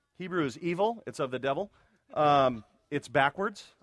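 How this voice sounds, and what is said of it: Sarcastic delivery. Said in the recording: “I'm just being sarcastic there.”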